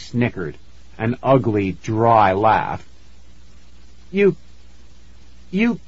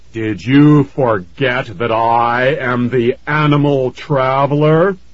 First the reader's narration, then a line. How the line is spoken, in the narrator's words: Fears bellowed